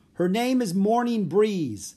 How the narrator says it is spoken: the guard shouted

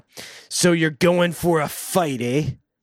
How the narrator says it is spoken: Hobo Johnny said in an ugly tone

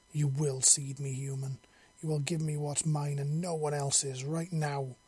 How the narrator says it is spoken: she snarled

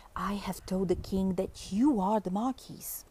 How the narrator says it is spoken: Puss whispered in reply

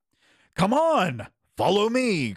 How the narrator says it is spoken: cried Harald

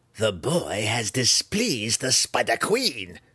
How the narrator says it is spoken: Malice growled, openly enraged and tired of Zack's sarcasm

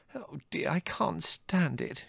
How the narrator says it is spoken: moaned

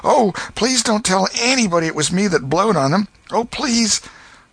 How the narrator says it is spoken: Huck sprang up and exclaimed

